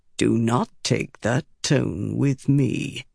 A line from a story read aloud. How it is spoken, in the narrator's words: cut in, speaking softly